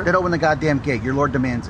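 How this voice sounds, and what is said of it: Convincing local accent, old man's speech. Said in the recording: “That accent, I felt that was home... That just sounded normal to me... It sounded just like average... Oliver Platt just nailed it right there... his flow of speech is just like an old man who's trying to like tell you something, but he's not giving you half of the story”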